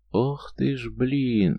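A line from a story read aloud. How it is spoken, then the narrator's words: Drawled in thought. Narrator (Russian): мысленно протянула Надя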